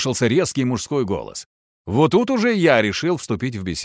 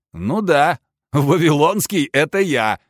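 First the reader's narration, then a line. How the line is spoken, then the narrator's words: Laughing. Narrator (Russian): засмеялся я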